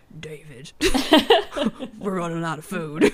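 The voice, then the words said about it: Impression of Joel. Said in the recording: “my amazing Joel impression”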